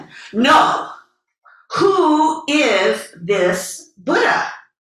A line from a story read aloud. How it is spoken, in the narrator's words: the hermit yelled again